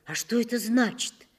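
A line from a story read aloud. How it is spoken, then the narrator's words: Frightened question. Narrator (Russian): я испуганно спросил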